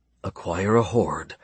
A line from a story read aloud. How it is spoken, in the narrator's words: Stephen whispered, greedy hunger blooming in his belly